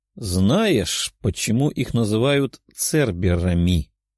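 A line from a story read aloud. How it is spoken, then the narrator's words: Quiet. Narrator (Russian): тихо произнесла синеволосая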